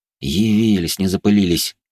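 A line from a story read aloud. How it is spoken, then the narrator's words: Grumbling. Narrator (Russian): проворчал я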